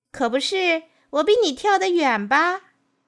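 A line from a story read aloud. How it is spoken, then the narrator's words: Frog calling out. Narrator (Chinese): 青蛙在老虎背后叫了起来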